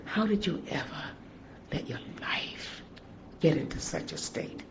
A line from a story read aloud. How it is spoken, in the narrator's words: quietly said